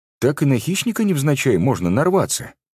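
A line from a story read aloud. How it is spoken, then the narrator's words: Quick reply. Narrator (Russian): быстро отреагировал Девяткин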